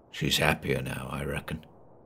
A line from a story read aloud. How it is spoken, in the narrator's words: he muttered